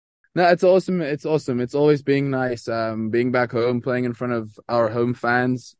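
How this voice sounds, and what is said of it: Speaks with an American accent. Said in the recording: “as you can see, my American accent”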